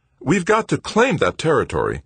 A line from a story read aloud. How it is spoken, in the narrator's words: Brennart said, his tone brightening immediately